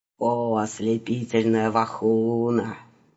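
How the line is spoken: Persuasive purring in ear. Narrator (Russian): убедительно мурлыкал ей на хрящеватое ушко мужчина

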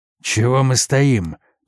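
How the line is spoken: Hoarse rasp. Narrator (Russian): прохрипел он

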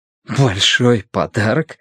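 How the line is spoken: Breathless laugh. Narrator (Russian): Тай рассмеялся, слегка задыхаясь

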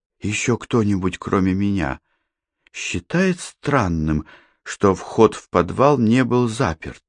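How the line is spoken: Whispered question. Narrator (Russian): шепотом спросила Катерина

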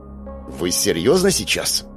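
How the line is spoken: Through gritted teeth. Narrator (Russian): процедил Ён-Жу

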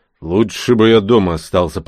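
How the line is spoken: Grumbling. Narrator (Russian): продолжал ворчать Рон

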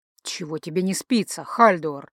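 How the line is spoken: Snorting. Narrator (Russian): хмыкнул Ранрео

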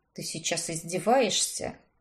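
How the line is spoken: Muttered. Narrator (Russian): буркнул он

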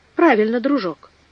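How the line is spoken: Plain reply. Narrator (Russian): ответил Сайрес Смит

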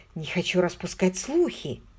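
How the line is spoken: Guilty mumble. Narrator (Russian): виновато пробормотал

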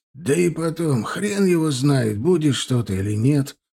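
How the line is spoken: Hoarse rasp. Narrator (Russian): прохрипел Степаныч

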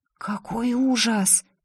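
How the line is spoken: Whispered. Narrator (Russian): прошептала Лина

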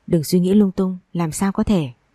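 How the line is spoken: Gentle, soothing. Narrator (Vietnamese): Hoắc Trường Uyên nhẹ nhàng vỗ về

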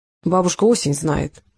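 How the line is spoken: Gloomy gunsmith. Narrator (Russian): мрачно ответил оружейник

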